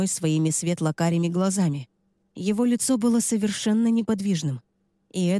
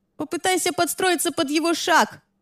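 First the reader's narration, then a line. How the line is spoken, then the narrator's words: Shouted from a distance. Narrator (Russian): прокричала мне Лиззи с края матов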